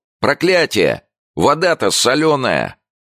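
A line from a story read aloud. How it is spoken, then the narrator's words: Angry shout, mouth full of sand. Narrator (Russian): он с ртом полным песка и злобно кричал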